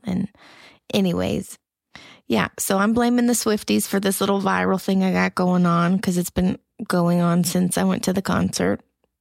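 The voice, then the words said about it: Sick voice going in and out. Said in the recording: “I've been a little under the weather ... you can hear in my voice that it goes in and out”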